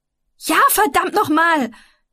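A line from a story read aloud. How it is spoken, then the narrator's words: Shouting angrily. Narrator (German): schrie ich ihn an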